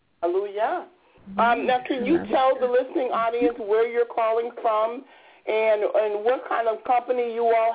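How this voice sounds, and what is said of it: Frayed, hoarse voice. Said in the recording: “I have a cold and my voice is a little frayed”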